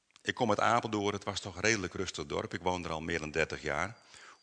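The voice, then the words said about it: Slight northern Dutch Frisian accent. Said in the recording (Dutch): “Oorspronkelijk kom ik uit Friesland. Misschien kunnen jullie dat ook nog horen ... Een beetje noordelijk accent.”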